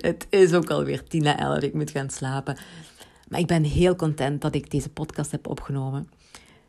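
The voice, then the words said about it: Limburg Dutch accent. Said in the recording (Dutch): “ik heb een Limburgs accent.”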